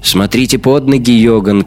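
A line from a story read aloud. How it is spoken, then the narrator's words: Shout. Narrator (Russian): крикнула она Реттенхуберу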